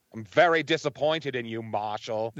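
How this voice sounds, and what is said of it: Good put-on New England accent. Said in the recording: “You do that Maine accent really well, that New England accent ... You do a pretty good job.”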